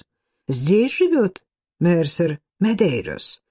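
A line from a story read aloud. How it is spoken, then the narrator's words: Plain. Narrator (Russian): спросил чей-то голос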